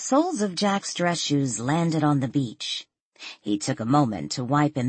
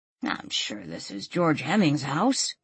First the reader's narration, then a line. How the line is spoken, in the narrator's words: Jack muttered